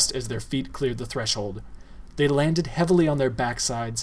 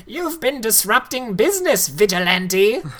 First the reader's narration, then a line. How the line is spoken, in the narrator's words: the fat man screamed as he struggled with the weapon